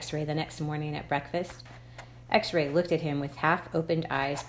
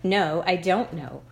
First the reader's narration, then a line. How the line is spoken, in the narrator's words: X-Ray snapped